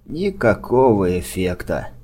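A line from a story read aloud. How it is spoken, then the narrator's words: Sigh. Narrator (Russian): вздохнул док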